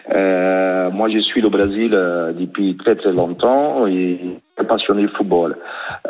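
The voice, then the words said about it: Brazilian accent speaking French. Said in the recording (French): “moi, je suis brésilien, hein, 100%, avec l'accent”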